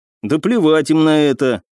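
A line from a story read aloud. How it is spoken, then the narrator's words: Gloomy tone. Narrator (Russian): мрачным тоном произнес Александр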